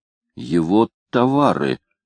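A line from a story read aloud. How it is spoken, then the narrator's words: Exclaiming. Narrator (Russian): воскликнул Кливленд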